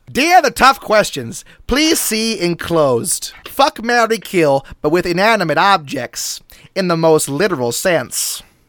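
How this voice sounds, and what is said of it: Funny put-on character voice. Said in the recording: “in a funny voice, becoming the person who sent it in”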